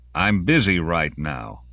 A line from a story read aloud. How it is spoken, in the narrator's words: Lawrence said